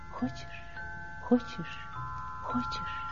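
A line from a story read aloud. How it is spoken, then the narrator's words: Whispering leaves. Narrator (Russian): листья шептали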